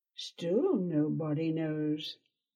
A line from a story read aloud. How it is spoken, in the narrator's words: Shira murmured